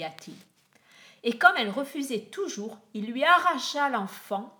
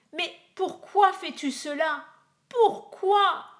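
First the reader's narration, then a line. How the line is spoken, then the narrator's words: Anguished scream. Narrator (French): hurla la pauvre mère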